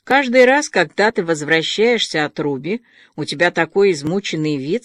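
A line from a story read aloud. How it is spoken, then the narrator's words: Plain. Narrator (Russian): сказала она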